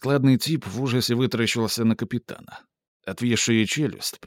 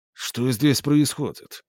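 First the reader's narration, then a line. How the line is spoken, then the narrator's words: Icy repetition. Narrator (Russian): повторил он ледяным тоном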